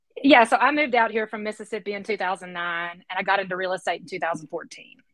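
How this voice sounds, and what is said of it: Southern US accent. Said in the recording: “our audience will soon hear that you are from somewhere in parts further south”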